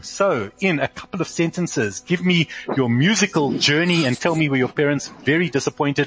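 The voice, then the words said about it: South African accent. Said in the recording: “your South African accent ... even in Hebrew you sound South African”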